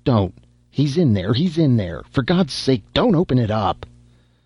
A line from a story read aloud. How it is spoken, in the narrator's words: he cried